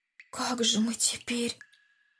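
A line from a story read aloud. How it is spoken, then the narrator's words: Whisper. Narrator (Russian): шепотом сказал Андрей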